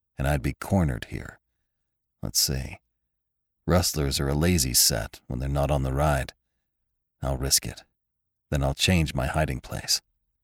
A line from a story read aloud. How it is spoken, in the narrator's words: he muttered